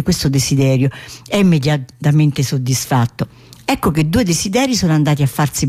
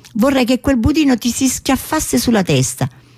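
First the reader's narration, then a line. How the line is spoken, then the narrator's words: Furious exclamation. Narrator (Italian): Furiosa perché suo marito ha sprecato uno dei suoi desideri con una simile sciocchezza, esclama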